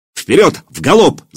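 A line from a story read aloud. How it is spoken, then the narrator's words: Shouting. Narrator (Russian): закричал Илья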